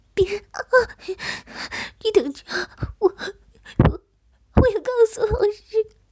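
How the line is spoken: Sobbing, threatening. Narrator (Chinese): 如意痛哭流涕，悲痛中还没有忘记恐吓别

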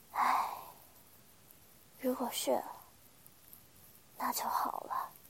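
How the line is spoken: Sighing, slow and wistful. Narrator (Chinese): 玉叹了口气，悠悠的说

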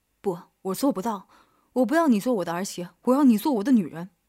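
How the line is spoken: Sudden cry. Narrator (Chinese): 老王突然叫道

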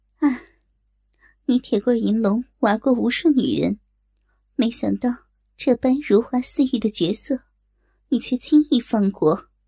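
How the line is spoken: Woman sighing. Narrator (Chinese): 背后有一女子叹了一口气道

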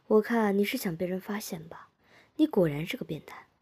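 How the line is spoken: Laughing. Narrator (Chinese): 我笑着说

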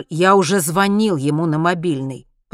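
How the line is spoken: Grumble. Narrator (Russian): проворчал Генри

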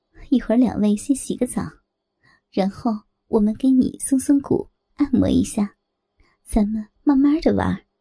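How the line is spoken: Smiling. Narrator (Chinese): 我笑着对他们说

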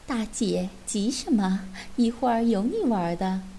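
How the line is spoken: Laughing. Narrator (Chinese): 不禁笑道

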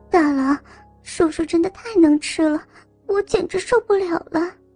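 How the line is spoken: Coquettish breathy panting. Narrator (Chinese): 金莲娇喘着

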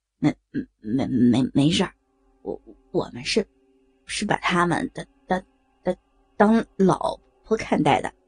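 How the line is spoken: Stammering. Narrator (Chinese): 刘涛结结巴巴的说着

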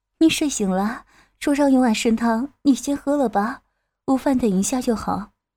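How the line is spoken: Soft sweet laughing. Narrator (Chinese): 秀琴阿姨 娇声 轻声的笑说

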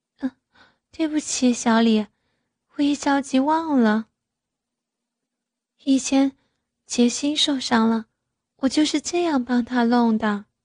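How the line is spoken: Guilty quiet voice. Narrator (Chinese): 岳母感觉自己犯了大错似的，小声的说

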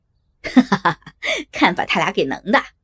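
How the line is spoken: Laughing. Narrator (Chinese): 三哥不禁笑了起来

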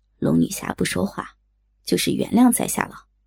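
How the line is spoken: Soft, half-smiling. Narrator (Chinese): 锦衣少年似笑非笑的 柔声道

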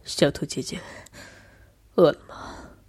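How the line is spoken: Slightly hoarse voice. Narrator (Chinese): 他的声音有些沙哑

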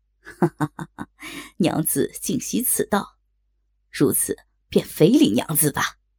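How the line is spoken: Wild laughter. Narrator (Chinese): 不由狂笑道

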